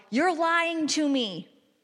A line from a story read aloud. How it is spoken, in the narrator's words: He would yell